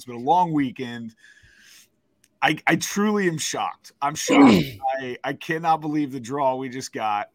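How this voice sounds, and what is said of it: Hoarse, worn-out voice. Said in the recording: “My voice is gone.”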